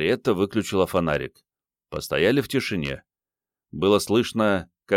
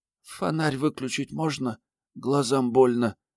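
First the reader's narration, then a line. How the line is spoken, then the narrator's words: Child whispering. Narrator (Russian): прошептал мальчик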